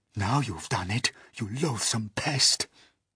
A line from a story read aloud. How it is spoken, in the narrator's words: whispered the earthworm to the centipede